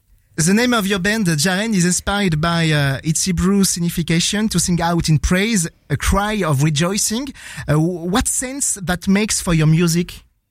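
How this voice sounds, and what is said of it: French-accented English. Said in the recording (French): “Désolé pour mon accent.”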